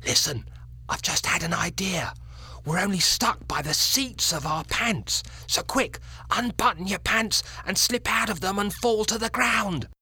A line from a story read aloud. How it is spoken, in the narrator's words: the fourth little boy, who had more sense than the others, whispered